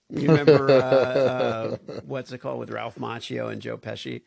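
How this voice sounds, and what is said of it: Usual voice. Nothing is said of it.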